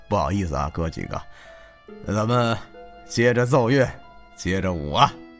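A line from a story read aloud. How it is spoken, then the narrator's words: Smiling, cheerful. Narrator (Chinese): 一脸笑意的跟大家说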